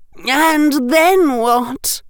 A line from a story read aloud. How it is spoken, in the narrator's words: gasped Flora and Hestia Carrow